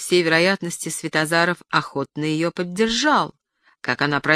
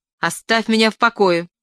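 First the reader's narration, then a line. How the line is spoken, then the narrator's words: Sudden shout. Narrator (Russian): крикнула она внезапно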